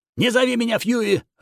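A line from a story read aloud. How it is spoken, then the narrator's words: Barking. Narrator (Russian): рявкнул Пэккард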